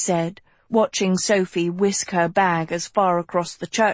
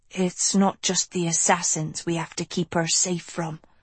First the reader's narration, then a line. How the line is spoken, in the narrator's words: whispered